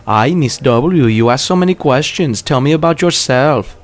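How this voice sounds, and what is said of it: Cringingly loud imitated woman's voice. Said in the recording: “does a cringingly loud impression of this woman at the bar”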